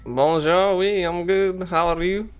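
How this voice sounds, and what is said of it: Put-on shifting foreign character accent. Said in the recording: “Dr. Cogsbuckle's new accent? ... it's my undercover ... go from French to Russian to Spanish?”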